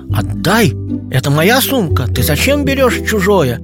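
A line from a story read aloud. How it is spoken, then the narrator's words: Angry shout. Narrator (Russian): Зло кричу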